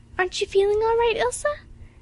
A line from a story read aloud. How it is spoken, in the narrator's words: asked anxiously